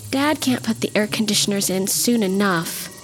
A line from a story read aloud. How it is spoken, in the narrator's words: Marcia groaned